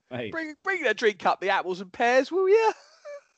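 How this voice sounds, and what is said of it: Exaggerated put-on English accent. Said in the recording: “It's like Americans. That's how you say it. As Americans do English accent, that's what they do.”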